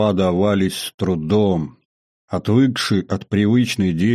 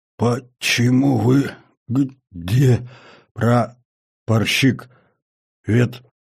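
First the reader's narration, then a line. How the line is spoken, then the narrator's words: Dazed hoarse croak. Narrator (Russian): С трудом сфокусировав взгляд, прохрипел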